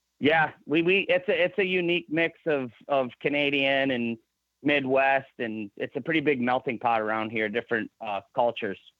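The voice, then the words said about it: Michigan accent. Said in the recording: “you can tell with your accent... the Michigan accent's a little bit different, so you can tell that you're from Michigan.”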